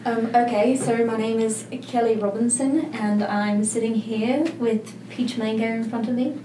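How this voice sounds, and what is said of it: Loud put-on British accent. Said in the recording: “give us your best British accent. ... Loud ... That's not bad. ... Very good. ... That was pretty good.”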